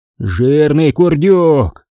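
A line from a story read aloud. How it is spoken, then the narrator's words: Growled. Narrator (Russian): прорычал Рахматулло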